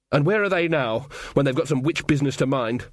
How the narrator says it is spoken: said Magrat

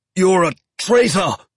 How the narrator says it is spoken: the chief engineer shouted

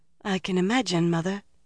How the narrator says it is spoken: Elaine said faintly

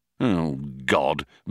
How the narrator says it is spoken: muttered Ford, slumped against a bulkhead

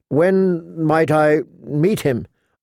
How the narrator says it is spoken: asked Sansa hesitantly

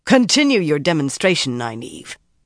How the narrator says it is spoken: Kyra commanded harshly

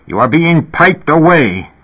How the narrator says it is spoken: Elias said furiously

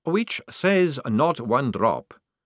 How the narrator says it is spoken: said the young man calmly

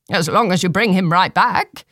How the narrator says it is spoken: said Granelton

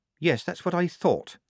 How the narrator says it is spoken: said Polly gravely

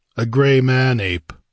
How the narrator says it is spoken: grunted

